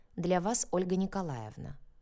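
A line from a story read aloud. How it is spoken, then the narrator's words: Dry curt interruption. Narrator (Russian): сухо оборвала я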